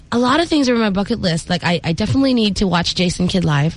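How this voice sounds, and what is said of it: American-sounding accent. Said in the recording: “people assume that I grew up there ... I just bought my accent in Baclaran”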